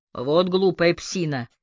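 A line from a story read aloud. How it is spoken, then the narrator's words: Grumbling. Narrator (Russian): проворчал полицейский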